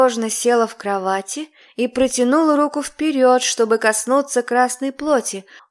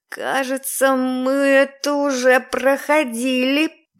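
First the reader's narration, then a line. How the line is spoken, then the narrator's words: Hoarse rasp. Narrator (Russian): прохрипела я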